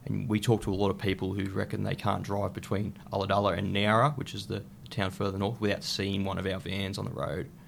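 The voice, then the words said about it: Heavy accent. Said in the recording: “There was a heavy accent there.”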